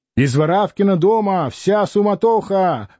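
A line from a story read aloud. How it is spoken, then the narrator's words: Drunken shouting. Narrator (Russian): кричал пьяный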